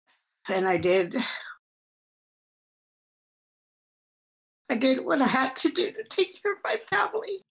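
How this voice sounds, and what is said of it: Emotional, tearful voice. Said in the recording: “I get emotional when I tell my story”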